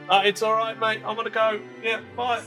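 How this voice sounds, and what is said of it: Imperfect put-on Australian accent. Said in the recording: “I thought I'd be brave and go with my Australian accent ... It's not my best, but it's something.”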